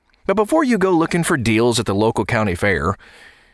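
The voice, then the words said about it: Put-on southern accent. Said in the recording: “why do you get a southern accent when you talk about the fair?”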